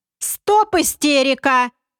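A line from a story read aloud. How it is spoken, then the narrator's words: Yelling at full volume. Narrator (Russian): Что было мочи, заорал комбинатор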